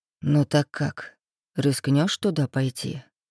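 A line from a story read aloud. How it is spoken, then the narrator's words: Quiet question. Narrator (Russian): спросил Макс тихо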